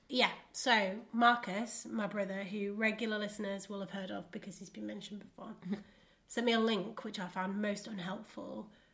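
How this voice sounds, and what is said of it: Congested voice from a cold. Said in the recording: “it came out a bit weird as well because I've got a cold ... my normal voices are coming out a bit different”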